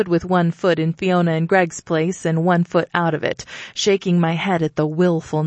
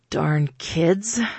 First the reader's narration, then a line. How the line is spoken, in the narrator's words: I grumbled